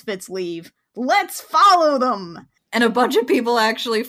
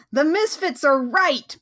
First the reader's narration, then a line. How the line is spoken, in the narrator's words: Clash just yells